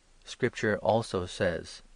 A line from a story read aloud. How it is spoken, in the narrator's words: answered